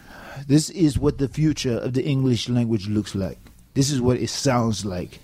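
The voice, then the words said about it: Strange invented dialect. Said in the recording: “It's a very strange dialect that you speak here.”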